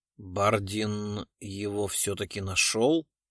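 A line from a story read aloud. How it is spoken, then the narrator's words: Plain. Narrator (Russian): спросил он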